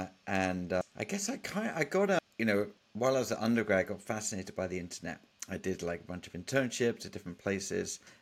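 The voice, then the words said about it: British accent. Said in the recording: “as a detect from the accent, I was born in the U.K.”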